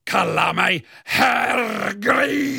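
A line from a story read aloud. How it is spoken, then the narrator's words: Bellowing. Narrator (Swedish): höra mig vråla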